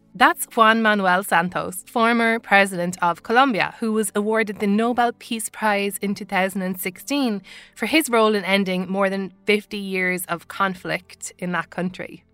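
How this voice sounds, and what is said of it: Irish accent. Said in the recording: “as you can tell from my accent, I'm Irish”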